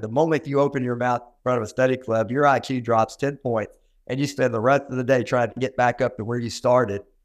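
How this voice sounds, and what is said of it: Southern US country accent. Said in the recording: “my country cornbone accent ... a Southern accent like mine”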